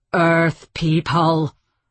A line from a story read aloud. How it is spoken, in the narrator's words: the voice roared from the spaceship